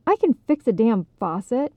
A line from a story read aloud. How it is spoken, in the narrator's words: he snapped at her